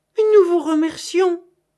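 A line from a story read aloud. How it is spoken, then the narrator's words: Exclaimed. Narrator (French): s'écria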